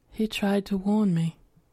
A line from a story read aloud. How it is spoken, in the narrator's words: in a flat voice, she said